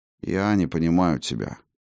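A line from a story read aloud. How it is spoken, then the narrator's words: Weary. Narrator (Russian): устало покачал головой Хаген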